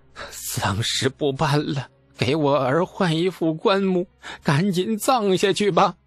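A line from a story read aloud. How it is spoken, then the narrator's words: Startled, mournful. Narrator (Chinese): 猛地一激灵，哭丧着脸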